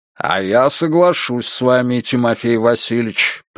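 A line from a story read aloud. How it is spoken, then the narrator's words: Deep bass voice. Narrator (Russian): пробасил командир корабля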